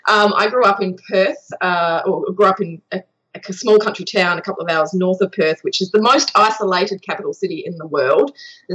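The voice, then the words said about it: Australian accent. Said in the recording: “I am Australian, in case you couldn't tell from the accent.”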